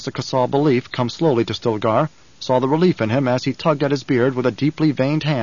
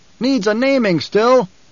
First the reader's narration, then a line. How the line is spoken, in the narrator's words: A voice from the troop called out